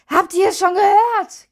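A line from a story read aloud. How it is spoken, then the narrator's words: Woman shrieking through window. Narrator (German): kreischte eine Frau durch das offene Küchenfenster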